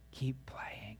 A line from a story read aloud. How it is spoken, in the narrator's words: the voice of the master whispering in your ear